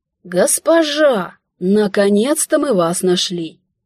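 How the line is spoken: Old man exclaiming. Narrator (Russian): воскликнул седовласый, возглавляющий отряд

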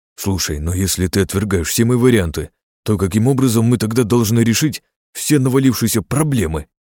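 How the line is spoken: Exclaiming. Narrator (Russian): воскликнул Илья

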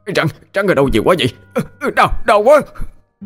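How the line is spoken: Terrified scream. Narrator (Vietnamese): sợ hãi mà hét lên

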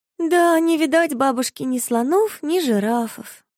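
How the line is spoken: Sighing. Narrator (Russian): вздохнула Марфуша

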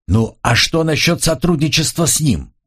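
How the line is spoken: Shouted after someone. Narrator (Russian): крикнул ей вслед Дан

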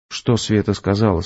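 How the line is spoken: Plain. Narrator (Russian): спросил я

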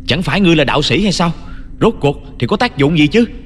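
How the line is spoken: Vicious shout. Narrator (Vietnamese): Sắc mặt của Sở Hàn tỏ ra vô cùng độc ác, hắn ta hét lên một lần nữa

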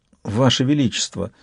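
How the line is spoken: Timid. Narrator (Russian): сказала она робко

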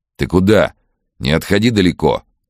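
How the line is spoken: Shouting. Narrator (Russian): крикнул Вадим

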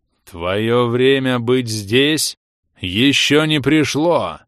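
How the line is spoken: Thundering voice in head. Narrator (Russian): Прогремело у меня в голове

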